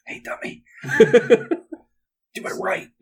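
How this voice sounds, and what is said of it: Whispering. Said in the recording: “Whispering.”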